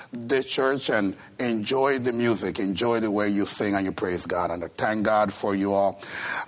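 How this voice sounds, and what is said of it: Costa Rican accent in English. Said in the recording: “I'm originally from Costa Rica, so that's the reason for the accent. ... you're going to hear English you never heard before. ... You're going to hear pronunciation that's going to cause Webster to turn in his grave.”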